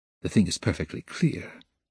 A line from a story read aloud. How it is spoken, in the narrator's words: he muttered to himself, with a malignant smile, anticipating the triumph of his decision